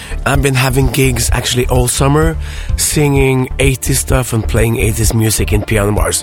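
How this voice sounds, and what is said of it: Rough, strained, worn-out voice. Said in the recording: “the reason my voice is so fucked up today is because I had a gig yesterday”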